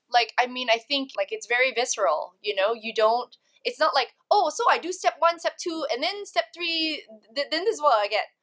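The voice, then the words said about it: Local accent coming through. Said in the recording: “Your accent just came out and I was like a bit shocked ... you have like a local accent”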